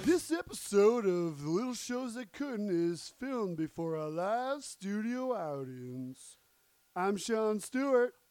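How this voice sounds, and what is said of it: Put-on accent, inconsistently held. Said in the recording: “I'm going to lose this accent now. It's a little annoying. It doesn't help... I feel like I was falling out of it like the second I started it”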